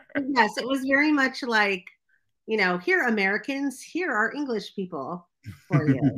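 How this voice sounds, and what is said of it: Usual voice. Nothing is said of it.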